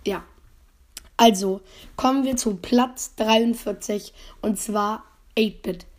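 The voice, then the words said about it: Slightly hoarse, rough voice. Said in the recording (German): “meine Stimme sich ein bisschen broke anhört ... Ich bin ein bisschen heiser.”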